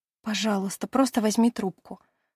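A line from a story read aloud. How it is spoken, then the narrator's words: Whispered plea. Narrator (Russian): шепотом прошу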